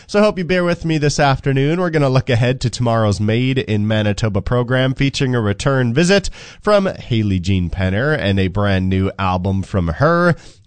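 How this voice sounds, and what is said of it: Stuffy, congested voice. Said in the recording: “my voice sounds a little bit stuffy today, that is because my allergies have kicked into high gear”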